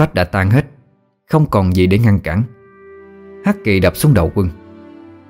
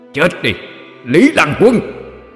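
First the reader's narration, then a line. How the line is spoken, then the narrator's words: Loud shout. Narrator (Vietnamese): Quỷ Diện hét lớn một tiếng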